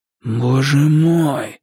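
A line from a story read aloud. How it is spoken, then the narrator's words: Hoarse whisper. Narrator (Russian): сипло прошептал я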